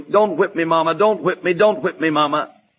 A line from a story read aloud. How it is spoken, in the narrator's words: He was whimpering